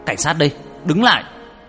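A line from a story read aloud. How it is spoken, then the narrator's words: Commanding shout. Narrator (Vietnamese): Minh giơ súng hét lên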